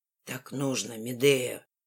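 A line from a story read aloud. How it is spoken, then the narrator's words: Angry hiss. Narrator (Russian): шипит зло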